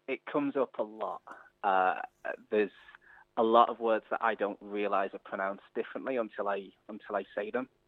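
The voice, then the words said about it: English accent. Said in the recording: “your English accent? Because you have still got an accent.”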